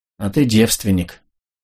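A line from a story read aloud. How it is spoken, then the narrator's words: Faint, swooning voice. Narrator (Russian): обморочным голосом сказала Элли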